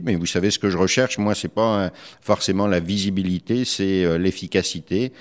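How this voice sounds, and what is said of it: French accent. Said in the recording (French): “Vous êtes un Québécois d'origine française, ça s'entend ... cet accent, en effet, ne me quitte pas”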